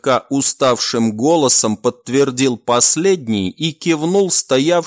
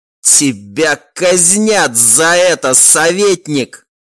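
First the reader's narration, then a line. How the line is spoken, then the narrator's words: Hissing through barely moving lips. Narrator (Russian): прошипел, едва ворочавший губами князь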